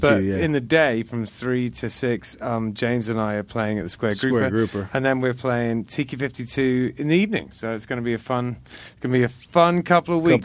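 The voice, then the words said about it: Charming accent. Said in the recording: “the charming accent”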